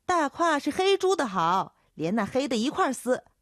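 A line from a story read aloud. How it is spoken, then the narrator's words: Young man shouting back. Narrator (Chinese): 叫豆蔻的年少姚杰喊回去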